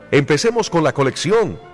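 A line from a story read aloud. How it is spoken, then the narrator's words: Shouted. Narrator (Spanish): gritó uno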